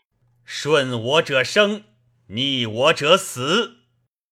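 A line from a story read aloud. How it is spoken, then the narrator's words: Angry rebuke. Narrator (Chinese): 卓怒斥曰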